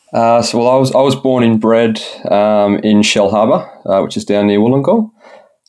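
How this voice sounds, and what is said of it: Australian accent with slight British lilt. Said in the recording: “originally an Aussie, despite the slight British lilt you've got going on with your accent”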